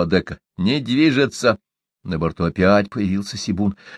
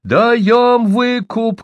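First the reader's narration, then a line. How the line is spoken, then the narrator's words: Shouted. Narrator (Russian): крикнул он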